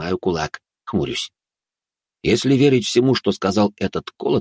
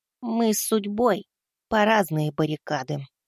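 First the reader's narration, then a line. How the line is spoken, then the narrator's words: Quiet. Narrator (Russian): тихо ответил я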